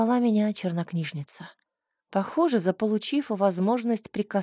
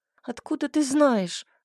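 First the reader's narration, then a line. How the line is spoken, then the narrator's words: Sobbing. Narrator (Russian): всхлипнула я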